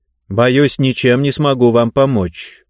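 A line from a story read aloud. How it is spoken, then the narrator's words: Cold, over the phone. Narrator (Russian): холодно ответили на другом конце провода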